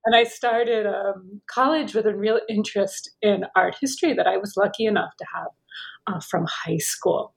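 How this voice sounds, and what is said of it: American accent. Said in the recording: “I'm American, perhaps you can tell by my accent.”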